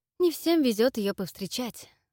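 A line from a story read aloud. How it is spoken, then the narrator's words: Sigh. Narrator (Russian): вздохнул Эдвард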